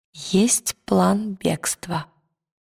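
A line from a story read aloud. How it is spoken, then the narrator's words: Quiet. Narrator (Russian): тихо сказала Лира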